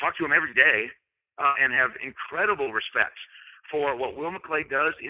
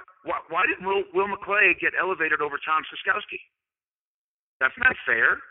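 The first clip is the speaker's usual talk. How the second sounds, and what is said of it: Sarcastic, playful delivery. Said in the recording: “I'm saying this sarcastically ... I'm being sarcastic and playful”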